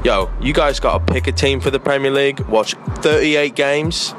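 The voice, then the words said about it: Speaker's own accent. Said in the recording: “especially love the accent”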